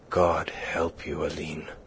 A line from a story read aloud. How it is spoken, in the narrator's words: groaned